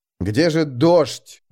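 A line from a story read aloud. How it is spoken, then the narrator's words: Silent inner scream. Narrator (Russian): буквально вопил он про себя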